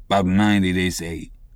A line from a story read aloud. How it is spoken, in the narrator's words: he gloomily muttered